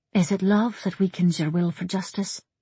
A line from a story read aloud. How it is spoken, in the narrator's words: Nessa asked softly